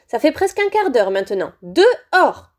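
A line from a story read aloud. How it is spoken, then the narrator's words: Firm, final tone. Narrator (French): dit-elle d'un ton sans réplique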